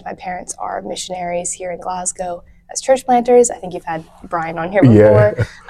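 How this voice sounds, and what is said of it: American accent. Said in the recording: “I just grew up in Scotland with an American accent.”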